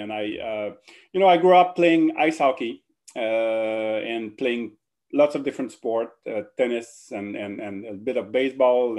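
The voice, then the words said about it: French-Canadian accent. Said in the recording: “as you probably noticed the French-Canadian accent right now”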